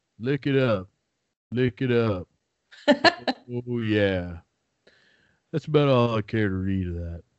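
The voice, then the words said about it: Imitates another person's voice. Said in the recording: “Just Sam Elliott on Family Guy going ... What do you think of my impression? Because I've been told it's like Hollywood quality.”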